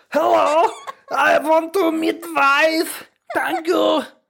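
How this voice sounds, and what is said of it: Put-on mixed foreign accent. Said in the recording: “that's a German accent with a Chinese accent that you're doing there”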